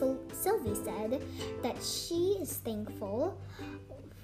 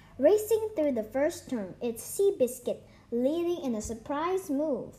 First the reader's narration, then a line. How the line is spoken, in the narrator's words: cried the scratchy recorded voice of an old-fashioned racetrack announcer talking through his nose